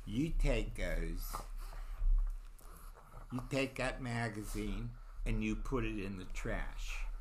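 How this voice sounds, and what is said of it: Imitates a woman, Pennsylvania/Baltimore accent. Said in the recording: “was that a Pennsylvania accent? Yes. Or Baltimore. Very much.”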